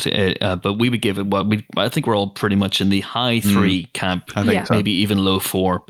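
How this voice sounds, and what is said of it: Northern Irish accent. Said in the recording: “my weird Northern Irish accent”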